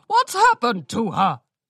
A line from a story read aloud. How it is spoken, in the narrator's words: the voice of Orange Mane shouting